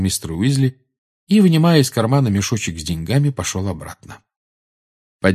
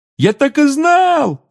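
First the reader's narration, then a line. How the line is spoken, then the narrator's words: Excited yell. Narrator (Russian): завопил Рон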